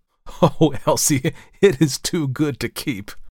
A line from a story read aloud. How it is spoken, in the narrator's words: laughed George